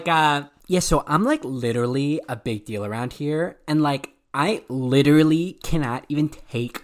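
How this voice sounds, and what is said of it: Valley Girl voice. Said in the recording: “A Valley Girl voice is like, let me see if I can do it.”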